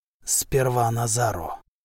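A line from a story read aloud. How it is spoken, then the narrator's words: Whisper. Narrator (Russian): шепотом произнес Сима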